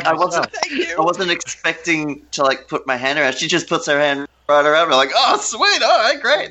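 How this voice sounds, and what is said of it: Australian accent. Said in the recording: “we're from Australia ... oh, your accent. I absolutely love it ... emphasizing your Australian accent”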